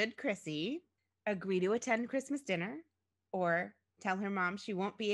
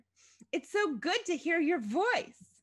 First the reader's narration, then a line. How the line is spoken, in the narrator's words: exclaimed her mother